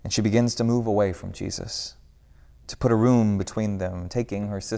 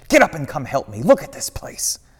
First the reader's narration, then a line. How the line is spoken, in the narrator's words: whispers harshly